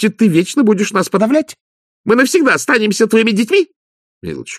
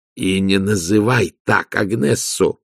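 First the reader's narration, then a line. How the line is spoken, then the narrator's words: Growl. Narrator (Russian): прорычал Влад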